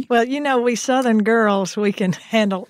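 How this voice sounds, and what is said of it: Exaggerated Southern US accent. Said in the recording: “I'm going to put on my most Southern accent now... I thought that was pretty Southern”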